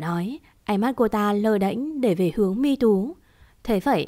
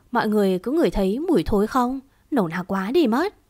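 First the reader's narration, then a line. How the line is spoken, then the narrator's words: Sarcastic. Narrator (Vietnamese): Một trong số bọn họ cất giọng mỉa mai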